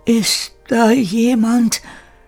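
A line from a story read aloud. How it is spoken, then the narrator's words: Called very softly. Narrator (German): rief Kire ganz leise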